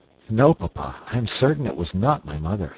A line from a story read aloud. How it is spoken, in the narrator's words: said he